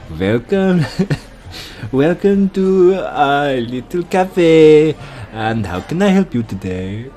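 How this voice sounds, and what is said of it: Put-on French accent. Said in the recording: “that's an interesting French accent”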